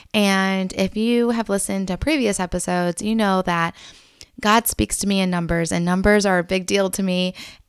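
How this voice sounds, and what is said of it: Strained, struggling voice. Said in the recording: “my voice is still struggling in this episode”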